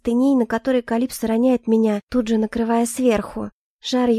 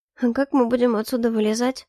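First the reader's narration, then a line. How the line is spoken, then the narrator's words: Thoughtful muffled mumble. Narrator (Russian): задумчиво пробормотала я, уткнувшись губами куда-то в шею Калипсо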